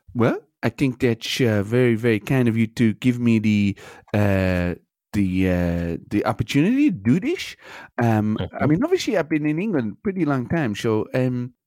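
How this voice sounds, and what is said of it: Noticeable Dutch accent. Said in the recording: “You've still got quite an accent, though.”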